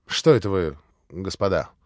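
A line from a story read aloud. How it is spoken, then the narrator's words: Beside himself, loud exclamation. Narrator (Russian): проговорил было Митя, но вдруг, как бы вне себя, как бы не сам с собой, воскликнул громко во весь голос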